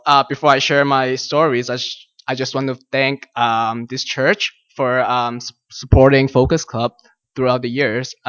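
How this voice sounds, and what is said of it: Chinese-accented English. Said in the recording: “Some of you might be able to tell by my accent that I'm Chinese. Yeah, that's why you probably can't understand my English.”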